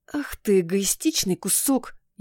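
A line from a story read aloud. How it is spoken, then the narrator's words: Furious growl through teeth. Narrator (Russian): Я зарычала сквозь зубы от бешенства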